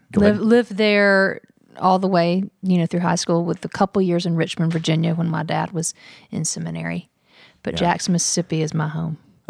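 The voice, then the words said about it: Southern US accent. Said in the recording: “you carry very proudly the Southern dialect forward ... this is the way you talk ... I've never tried to lose my Southern accent. I can't lose my Southern accent.”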